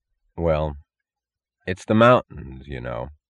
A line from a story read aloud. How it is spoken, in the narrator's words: said Lester Tuck